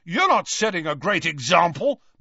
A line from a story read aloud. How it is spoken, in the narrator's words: McLagan shouted back, red-faced and furious